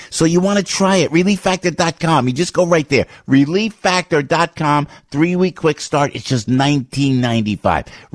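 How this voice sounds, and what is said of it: New Jersey accent. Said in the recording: “With my New Jersey accent”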